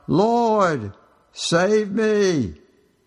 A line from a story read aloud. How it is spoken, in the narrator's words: he was afraid … cried out